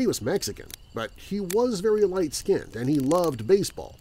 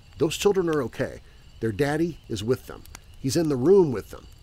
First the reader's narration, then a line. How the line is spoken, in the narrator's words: One of my really strange and recluse neighbors calmly told my mom